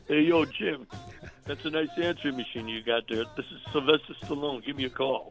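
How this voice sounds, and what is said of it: Imitates another person's voice. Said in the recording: “you probably do a better Stallone than I do ... my own imitation or impersonation”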